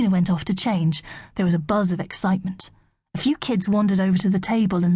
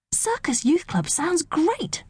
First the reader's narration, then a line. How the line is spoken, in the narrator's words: said eagerly